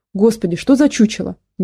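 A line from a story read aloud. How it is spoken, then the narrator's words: Sudden exclamation. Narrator (Russian): неожиданно воскликнула она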